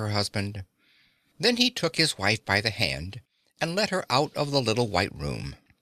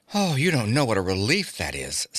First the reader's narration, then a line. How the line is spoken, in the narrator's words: sighed Mr